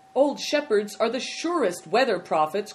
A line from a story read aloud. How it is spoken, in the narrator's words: cried Good Fortune